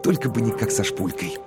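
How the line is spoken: Whispered. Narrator (Russian): Коровин прошептал

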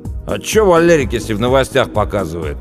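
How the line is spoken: Snapping retort. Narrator (Russian): огрызнулся Пашка

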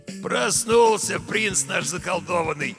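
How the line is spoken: Glad, hoarse voice. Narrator (Russian): обрадованно произнес хриплый голос

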